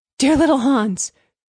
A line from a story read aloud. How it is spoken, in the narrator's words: cried the miller